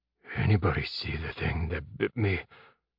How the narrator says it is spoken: Jeb whispered, his voice not quite working

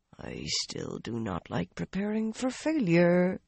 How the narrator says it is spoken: Arian murmured into her teacup

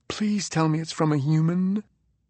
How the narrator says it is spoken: Clippy whispered

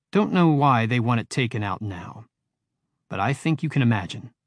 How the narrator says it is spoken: said Conan

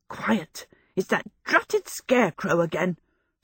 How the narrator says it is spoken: Sophie gasped

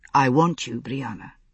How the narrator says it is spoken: he said softly

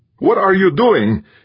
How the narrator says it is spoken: he roared at her

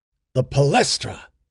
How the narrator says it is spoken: exclaimed Arius

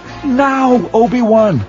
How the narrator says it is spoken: Anakin cried

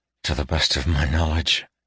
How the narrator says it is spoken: he said softly

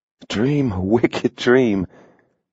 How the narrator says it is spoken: she sighed softly

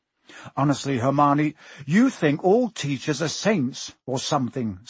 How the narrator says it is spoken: snapped Ron

